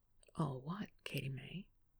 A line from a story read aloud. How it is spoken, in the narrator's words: asked, lowering his voice to a huskier pitch